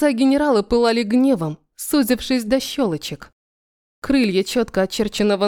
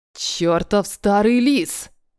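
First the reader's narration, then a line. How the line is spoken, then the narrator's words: Through gritted teeth. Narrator (Russian): процедил он сквозь зубы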